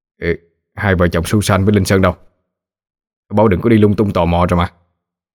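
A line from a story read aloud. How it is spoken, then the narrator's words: Annoyed. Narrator (Vietnamese): bực bội nói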